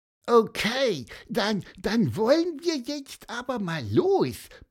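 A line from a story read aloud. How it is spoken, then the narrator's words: Squeaked. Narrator (German): piepste Pieper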